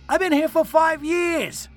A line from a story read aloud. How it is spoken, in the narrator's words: I shouted defensively